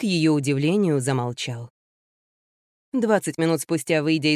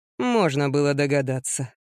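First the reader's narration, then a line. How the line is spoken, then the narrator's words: Grumbling. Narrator (Russian): проворчал только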